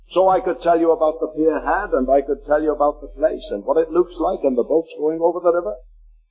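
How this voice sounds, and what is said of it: Liverpool accent. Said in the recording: “That's the city I was brought up... What do they talk like? Well, you probably know because you're listening to me... their accent”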